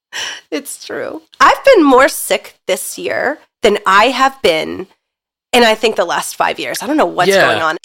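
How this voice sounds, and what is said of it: Congested head-cold voice, Philadelphia accent. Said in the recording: “the way you said head cold ... you like left the L out completely ... Philadelphia / cold accent that you have right now”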